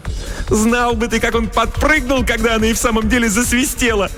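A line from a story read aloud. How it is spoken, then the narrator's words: Ringing laughter. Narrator (Russian): звонко расхохоталась Селина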